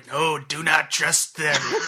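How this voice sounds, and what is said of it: Imitates an emperor character's voice. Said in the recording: “I had to do my best emperor voice. ... It was good. It's good. It was very good.”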